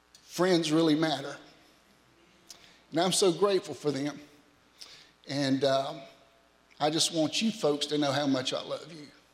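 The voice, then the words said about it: Teary, emotional voice. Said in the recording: “I'm just a little teary today”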